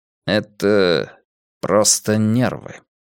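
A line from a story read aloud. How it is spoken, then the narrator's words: Slow. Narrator (Russian): медленно произнес Ломбард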